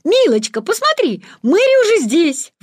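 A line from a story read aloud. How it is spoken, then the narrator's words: Exclaiming. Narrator (Russian): воскликнул он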